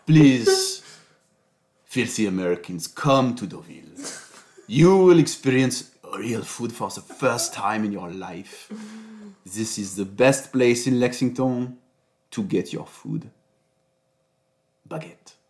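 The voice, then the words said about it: Put-on French accent in English. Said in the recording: “I should do it with just the French accent in English.”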